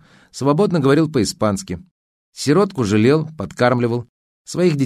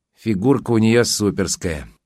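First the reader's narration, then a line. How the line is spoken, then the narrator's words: Sighing. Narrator (Russian): вздохнула Поля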